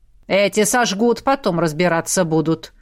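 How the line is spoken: Grumbling witch. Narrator (Russian): проворчала ведьма

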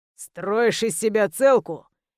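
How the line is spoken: Growling. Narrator (Russian): Прорычал ублюдок

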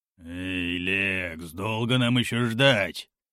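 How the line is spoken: Grumble. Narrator (Russian): проворчал Горм

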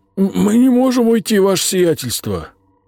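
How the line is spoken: Frightened objection. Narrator (Russian): испуганно возразил один из городовых

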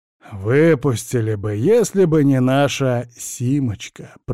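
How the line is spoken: Grumble. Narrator (Russian): пробурчал Курбатов

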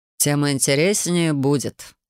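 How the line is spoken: Snorting dragon. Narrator (Russian): хмыкнул дракон

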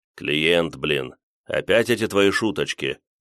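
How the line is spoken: Grumbled under breath. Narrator (Russian): пробурчал себе под нос Дамир

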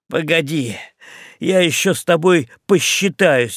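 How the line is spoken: Sobbing. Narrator (Russian): разрыдался Ральф

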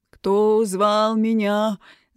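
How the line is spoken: Sepulchral questioning voice. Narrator (Russian): за могильным голосом вопросила мамуля

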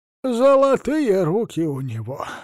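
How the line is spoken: Sighing old woman. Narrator (Russian): вздохнула старушка

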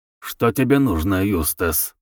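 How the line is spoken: Grumbling. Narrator (Russian): проворчал мистер Мизон

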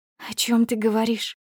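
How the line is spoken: Hoarse, straining words. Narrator (Russian): Просипела, с трудом выдавливая слова

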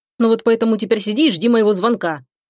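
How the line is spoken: Angry curt retort. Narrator (Russian): бросает зло друг

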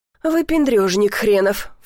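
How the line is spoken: Scornful snort. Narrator (Russian): фыркнула

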